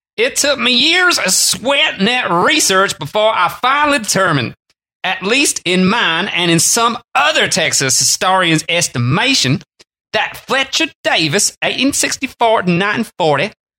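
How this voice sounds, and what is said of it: Attempted Texas accent. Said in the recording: “can you do a Texas accent? ... Not really.”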